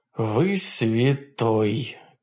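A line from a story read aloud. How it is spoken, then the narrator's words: Quiet sob. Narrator (Russian): тихо всхлипнул я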